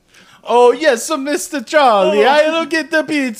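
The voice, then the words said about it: Put-on Italian man accent. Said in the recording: “What if it was like, oh, yes, sir, Mr. Charlie, but an Italian man?”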